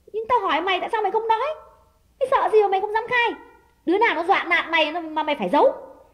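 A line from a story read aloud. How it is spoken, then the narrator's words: Louder shout. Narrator (Vietnamese): Đào quát lớn hơn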